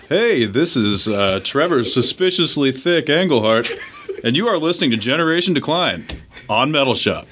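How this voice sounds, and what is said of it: Boisterous, corny radio DJ voice. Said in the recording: “as boisterous and as corny as possible ... Give us your best radio voice.”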